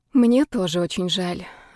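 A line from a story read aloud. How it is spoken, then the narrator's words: Sighing. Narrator (Russian): вздохнула я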